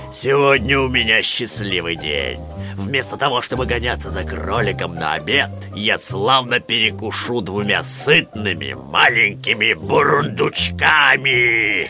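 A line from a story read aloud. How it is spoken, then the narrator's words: Menacing growl. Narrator (Russian): Медведь зловеще посмотрел на них и прорычал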